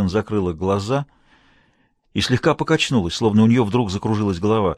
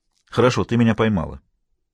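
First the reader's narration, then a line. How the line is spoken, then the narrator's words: Almost angry declaration. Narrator (Russian): заявил Хэммон почти сердито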